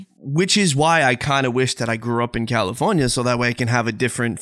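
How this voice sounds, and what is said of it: Speaker's own charming accent. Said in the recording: “I wouldn't have this accent, this charming, charming accent.”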